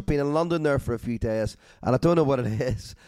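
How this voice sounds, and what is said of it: Hoarse, slightly chesty voice. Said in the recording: “I'm a little bit hoarse ... a little bit chesty”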